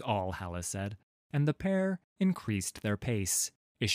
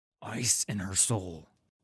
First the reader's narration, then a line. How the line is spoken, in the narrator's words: he hissed